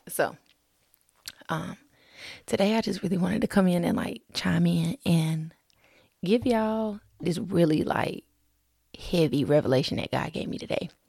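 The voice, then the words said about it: Whispering quietly. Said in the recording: “you might have to turn your volume up a little bit this episode because I'm whispering.”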